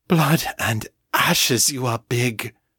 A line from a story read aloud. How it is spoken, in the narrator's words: John panted, in not quite Morgan's voice